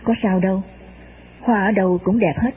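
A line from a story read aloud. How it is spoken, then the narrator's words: Soft, smiling old man. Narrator (Vietnamese): ông lão mỉm cười nói khẽ với tôi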